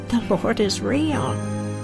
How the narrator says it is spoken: giggling to myself and saying

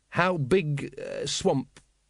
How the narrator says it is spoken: he faltered

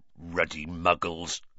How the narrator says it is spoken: growled Hagrid

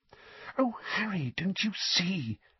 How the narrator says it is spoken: Hermione breathed

